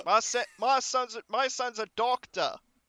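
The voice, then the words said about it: Failed New York accent, squawky. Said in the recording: “it's barely different from how you normally talk ... It's more like a squawk than an accent. ... I want to be doing a New York accent, but I can't do a New York accent.”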